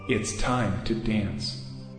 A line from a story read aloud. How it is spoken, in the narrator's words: he said in a low whisper